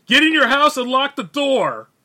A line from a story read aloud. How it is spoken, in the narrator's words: The truck driver yelled